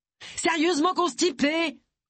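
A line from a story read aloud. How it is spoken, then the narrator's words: Shouting. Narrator (French): cria-t-elle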